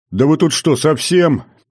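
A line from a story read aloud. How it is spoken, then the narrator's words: Loud, just-woken young man. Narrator (Russian): громко поинтересовался парень, просыпаясь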